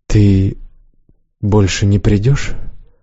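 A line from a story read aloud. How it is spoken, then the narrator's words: Quiet question. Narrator (Russian): тихо спросила Джаль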